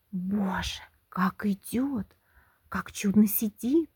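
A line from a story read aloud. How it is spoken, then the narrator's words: Whispering crowd. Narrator (Russian): шептали в свите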